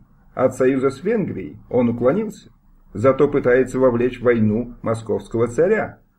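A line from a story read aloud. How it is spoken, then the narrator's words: Plain. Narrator (Russian): сказал Смировский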